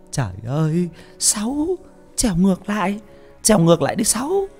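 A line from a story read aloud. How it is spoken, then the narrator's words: Old woman muttering. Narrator (Vietnamese): Bà Thanh lẩm bẩm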